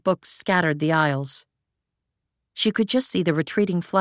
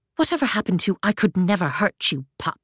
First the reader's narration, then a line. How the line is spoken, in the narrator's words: Claire hissed